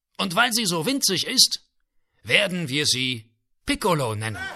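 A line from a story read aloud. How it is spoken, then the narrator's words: Calling to crowd. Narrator (German): rief in die Menge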